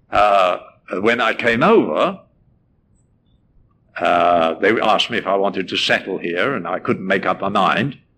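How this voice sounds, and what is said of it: English accent. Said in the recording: “I came from England, as you can probably tell. Can't help that. I mean, I can't help my accent.”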